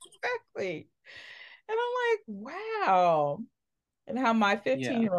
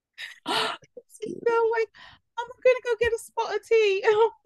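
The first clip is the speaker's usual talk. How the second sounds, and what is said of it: Put-on British accent. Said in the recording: “she has a British accent”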